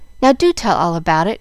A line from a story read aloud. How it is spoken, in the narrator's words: cried Jill, who was pining to know the whole story, and felt as if she had earned the right to hear it